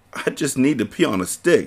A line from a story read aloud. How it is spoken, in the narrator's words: she said with a laugh